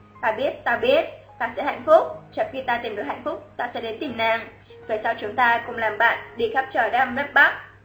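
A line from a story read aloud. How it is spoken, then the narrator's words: Gentle, smiling. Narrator (Vietnamese): Quân Hiên cười, ... dịu dàng nói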